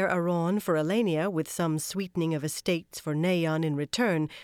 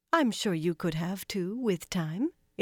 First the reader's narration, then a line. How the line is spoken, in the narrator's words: Elaine said, too sweetly